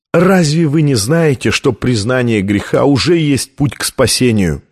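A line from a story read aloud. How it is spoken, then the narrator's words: Sad laugh. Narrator (Russian): печально рассмеялся Камерарий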